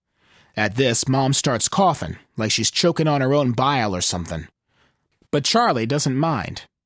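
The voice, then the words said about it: Put-on Wyoming accent. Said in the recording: “my Wyoming accent”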